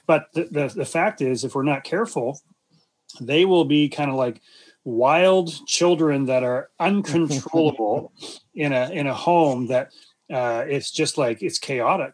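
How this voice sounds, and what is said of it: Slightly raspy voice. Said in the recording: “I'm getting a little bit of a raspy throat here”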